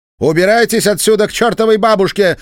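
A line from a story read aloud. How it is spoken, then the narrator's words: Shouted. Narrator (Russian): закричала Энни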